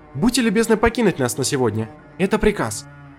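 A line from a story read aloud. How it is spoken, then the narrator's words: Sharp tone. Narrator (Russian): резким тоном сказала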